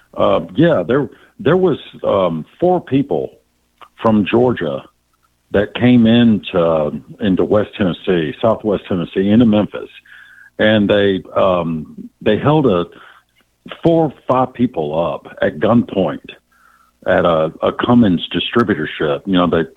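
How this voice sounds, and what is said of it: Tennessee Southern accent. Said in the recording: “He's got the accent.”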